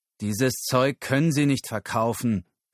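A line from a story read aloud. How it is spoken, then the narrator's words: Growling. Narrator (German): knurrte er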